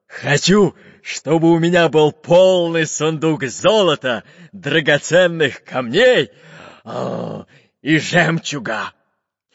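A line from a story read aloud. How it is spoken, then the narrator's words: Loud. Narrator (Russian): громко сказал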